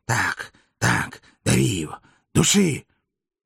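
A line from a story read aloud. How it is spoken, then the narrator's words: Savage gleeful wheezing. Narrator (Russian): Сулла, с пеной у рта, упивался со зверским наслаждением и продолжал хрипеть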